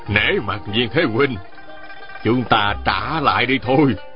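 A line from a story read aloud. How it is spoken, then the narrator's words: Smiling. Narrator (Vietnamese): Ôn Phương Sơn mỉm cười nói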